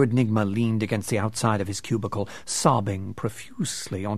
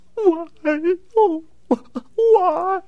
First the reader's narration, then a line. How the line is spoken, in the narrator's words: he moaned inconsolably